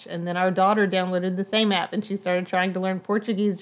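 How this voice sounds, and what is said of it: Southern US accent. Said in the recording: “this southern accent that I cannot shake”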